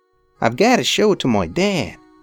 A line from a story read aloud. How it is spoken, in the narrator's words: he murmured, dazed